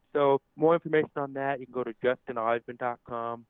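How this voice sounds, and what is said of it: Deaf accent. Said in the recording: “I'm a motivational speaker with a deaf accent”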